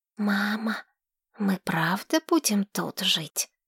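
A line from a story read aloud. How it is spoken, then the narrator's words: Whispered question. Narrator (Russian): Шепотом спросил Ривергейл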